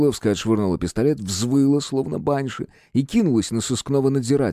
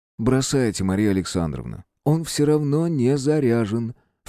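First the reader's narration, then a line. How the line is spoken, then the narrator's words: Smooth insinuating. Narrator (Russian): вкрадчиво добавил Руднев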